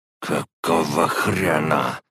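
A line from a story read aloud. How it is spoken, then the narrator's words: Through gritted teeth. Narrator (Russian): говорил он сквозь зубы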